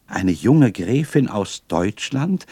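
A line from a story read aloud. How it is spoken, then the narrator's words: Delighted exclamation. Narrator (German): rief ich voller Entzücken aus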